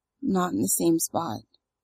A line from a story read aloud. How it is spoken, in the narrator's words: Maria says, choked